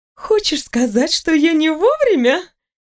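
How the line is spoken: Laughing. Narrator (Russian): рассмеялась элементаль

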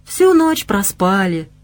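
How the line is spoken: Cooing girl. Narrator (Russian): проворковала девушка

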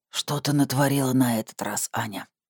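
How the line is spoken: Hoarse voice. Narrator (Russian): Голос хрипел

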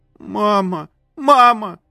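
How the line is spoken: Shrieking. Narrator (Russian): Взвизгнула Ядя

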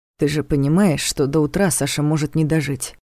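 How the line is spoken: Quiet objection. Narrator (Russian): так же тихо возразил Ваня

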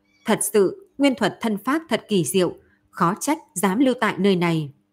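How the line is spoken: Calm, faint laugh. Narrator (Vietnamese): Triệu Mục Thần cũng không tức giận, chỉ cười nhạt một tiếng nói

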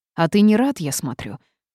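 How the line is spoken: Snapping retort. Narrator (Russian): огрызнулась я

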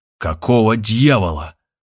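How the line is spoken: Angry shout. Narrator (Russian): злобно выкрикнул он

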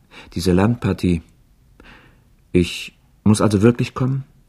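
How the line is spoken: Hesitant question. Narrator (German): fragte er zögernd

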